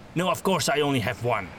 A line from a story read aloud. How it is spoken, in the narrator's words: Gustav snapped